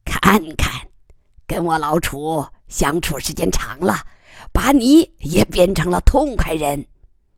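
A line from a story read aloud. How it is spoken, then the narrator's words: Cheerful, grinning. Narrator (Chinese): 楚贵妇不以为忤，笑嘻嘻地说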